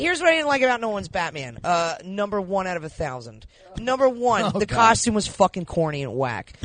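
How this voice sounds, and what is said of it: Usual voice. Nothing is said of it.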